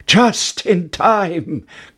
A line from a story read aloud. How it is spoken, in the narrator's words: cried Jack